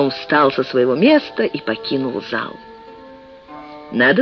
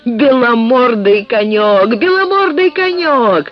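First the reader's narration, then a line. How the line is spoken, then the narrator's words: Shouted. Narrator (Russian): он крикнул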